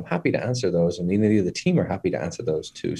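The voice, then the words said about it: Speaks with a distinctive accent. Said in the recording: “that beautiful accent”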